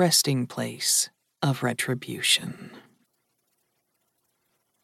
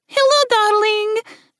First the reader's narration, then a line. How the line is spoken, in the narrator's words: Melody said loudly into the phone